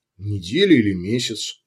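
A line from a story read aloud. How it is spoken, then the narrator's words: Doctor sighing. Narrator (Russian): Врач вздохнул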